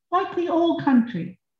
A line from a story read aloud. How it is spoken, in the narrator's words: sighed Mrs